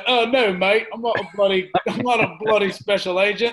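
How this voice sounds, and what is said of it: Bad deep put-on British accent. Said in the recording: “your terrible British accent ... Here's my terrible British accent ... with this deep-ass, 6'7" Harry Potter ass voice”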